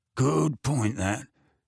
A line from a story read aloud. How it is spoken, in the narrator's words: he grunted